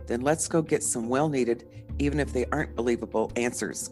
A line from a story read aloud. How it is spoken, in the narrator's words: said